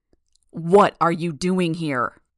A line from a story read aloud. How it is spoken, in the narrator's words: He roared the words to my face